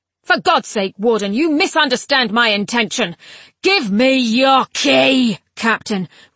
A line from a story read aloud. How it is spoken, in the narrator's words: roared the scion of the sixth